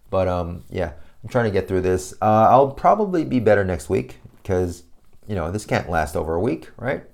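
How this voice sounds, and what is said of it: Subdued, low-energy voice. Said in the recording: “It's a little hard to keep talking now... I sound a little too down. My voice is a little too down and it's not as chirpy as it is normally.”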